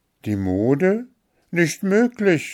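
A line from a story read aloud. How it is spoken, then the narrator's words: Call. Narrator (German): rief Märchen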